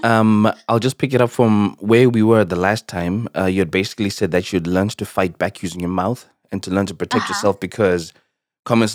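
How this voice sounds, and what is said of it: Unsteady voice, sounds sick. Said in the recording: “My voice is all over the place because I have a pretty bad cold.”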